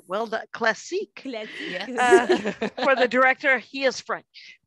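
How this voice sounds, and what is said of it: Put-on French accent. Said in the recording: “A little French accent.”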